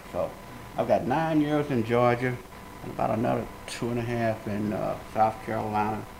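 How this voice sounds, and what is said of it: Southern American drawl. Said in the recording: “I got this southern drawl, I talk with a slang”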